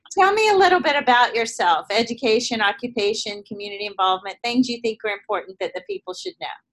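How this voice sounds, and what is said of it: Southern American accent. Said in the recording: “have probably detected my southern accent ... I still carry it with me everywhere I go ... this southern accent”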